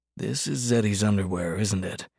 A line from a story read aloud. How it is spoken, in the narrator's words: Hart asked Mercy under his breath